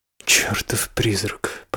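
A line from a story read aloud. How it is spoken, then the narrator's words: Muttered. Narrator (Russian): пробормотал Ричард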